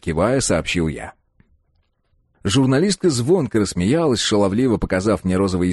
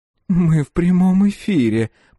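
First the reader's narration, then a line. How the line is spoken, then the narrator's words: Moaning. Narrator (Russian): простонала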